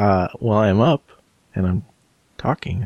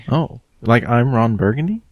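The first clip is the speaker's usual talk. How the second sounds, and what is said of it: Rising question-like intonation, uptalk. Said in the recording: “Up talking is where you end every sentence like it's a question.”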